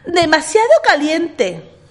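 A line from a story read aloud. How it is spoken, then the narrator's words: Shouting. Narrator (Spanish): Ricitos de Oro gritó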